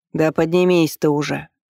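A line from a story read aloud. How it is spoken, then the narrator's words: Irritated. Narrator (Russian): раздраженно ответил царевич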